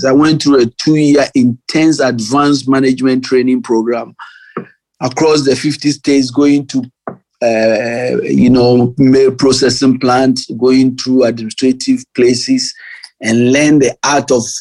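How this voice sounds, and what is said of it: Strong foreign accent. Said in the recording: “my big accent”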